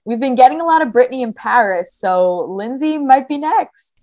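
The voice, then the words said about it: New Jersey accent. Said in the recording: “your New Jersey accent just jumped out”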